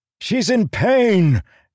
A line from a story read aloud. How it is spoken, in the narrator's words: Adolin shouted